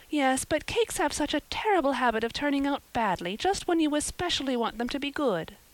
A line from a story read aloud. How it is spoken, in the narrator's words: sighed Anne